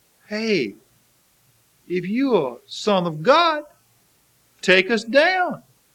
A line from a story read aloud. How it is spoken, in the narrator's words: taunted